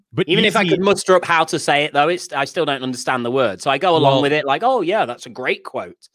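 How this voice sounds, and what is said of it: British accent. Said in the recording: “with your British accent”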